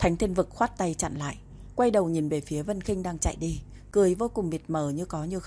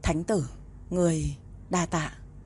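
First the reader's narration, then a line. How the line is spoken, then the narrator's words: Trembling voice. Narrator (Vietnamese): giọng cũng run run nói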